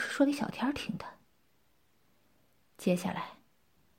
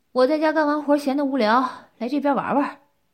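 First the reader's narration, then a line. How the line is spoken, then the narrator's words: Loud, innocent. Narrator (Chinese): 我一脸无辜，大声道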